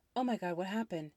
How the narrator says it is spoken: I almost shouted

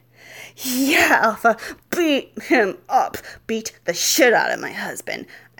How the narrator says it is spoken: I shrieked

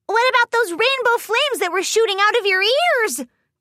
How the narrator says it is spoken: Pinky squealed

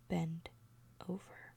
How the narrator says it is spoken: whisper

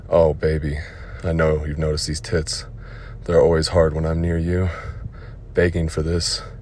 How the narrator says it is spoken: moaned in pleasure

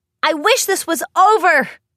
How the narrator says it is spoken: Rainbow shouted

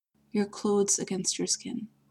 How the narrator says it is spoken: she said, her voice now softer, gentler, as if she were reluctant to disturb the tenuous balance between them

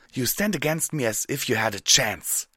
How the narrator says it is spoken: she snarled

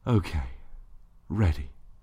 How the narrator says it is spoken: sighed

